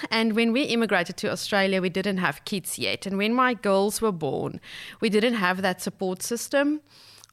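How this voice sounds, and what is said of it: Non-native English accent. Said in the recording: “as you can probably tell from my accent, I'm an immigrant”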